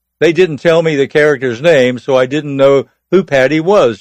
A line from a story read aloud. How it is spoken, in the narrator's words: she chuckled